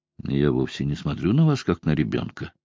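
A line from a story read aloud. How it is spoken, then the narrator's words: Conciliatory tone. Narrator (Russian): сказал примирительным тоном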